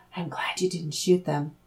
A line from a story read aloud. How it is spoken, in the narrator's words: Laura whispered in his ear